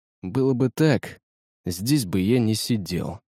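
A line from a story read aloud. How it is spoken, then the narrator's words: Sighing. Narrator (Russian): вздохнул Капрал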